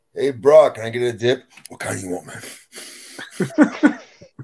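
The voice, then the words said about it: Brock Lesnar impression. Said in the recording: “that Brock Lesnar impression with the eyes wide open ... Very funny impression.”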